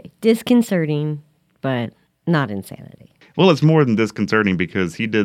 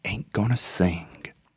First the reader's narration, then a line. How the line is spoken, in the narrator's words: he chants softly but audibly